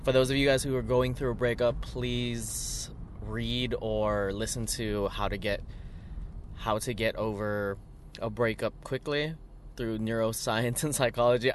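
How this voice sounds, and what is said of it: Voice sounds a little weird. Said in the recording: “If my voice sounds a little weird, it's because we went out, we danced”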